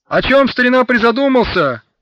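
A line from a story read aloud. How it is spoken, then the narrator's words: Shout. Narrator (Russian): крикнул на него латыш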